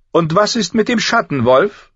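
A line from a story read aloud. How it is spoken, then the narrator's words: Called after him. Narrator (German): rief ihm nach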